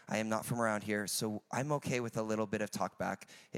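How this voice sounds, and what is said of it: American accent. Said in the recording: “I'm from America, if you have not guessed on the accent.”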